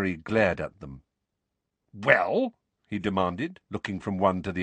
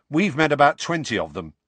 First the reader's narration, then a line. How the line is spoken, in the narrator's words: said Ron